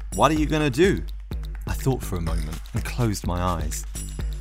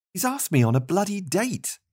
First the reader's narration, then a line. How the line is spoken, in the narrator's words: Marty exclaimed